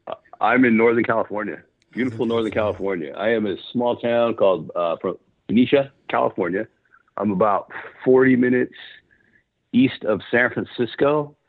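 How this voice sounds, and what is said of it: Smooth, resonant radio voice. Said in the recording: “He's got a good radio voice”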